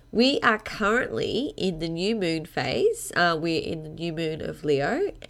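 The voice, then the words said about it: Congested voice, strong Australian accent. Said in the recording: “I have a little bit of a cold today, so excuse me if I sound really Australian”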